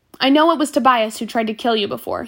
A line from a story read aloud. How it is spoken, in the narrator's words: he said